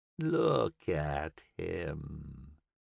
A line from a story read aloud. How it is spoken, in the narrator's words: demon purred, its voice wheedling